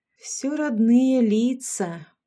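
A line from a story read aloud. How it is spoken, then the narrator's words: Drawling. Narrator (Russian): протянула Карла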